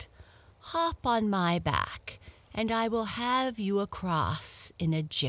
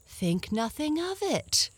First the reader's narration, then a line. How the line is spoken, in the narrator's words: the dragon replied cheerfully